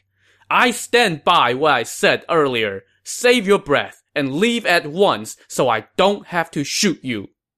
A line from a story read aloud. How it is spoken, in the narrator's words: he shouted back